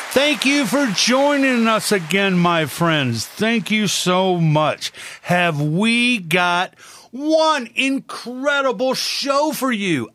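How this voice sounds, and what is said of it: Excited, energetic voice. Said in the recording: “I am so, so excited about it. I know you can hear it in my voice.”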